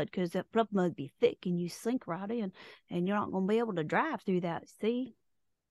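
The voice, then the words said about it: Exaggerated cartoonish put-on Southern accent. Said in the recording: “Idea what that accent was ... would be highly offended by that accent ... I wasn't even trying for New Orleans ... That's not even Southern. That was more like cartoon.”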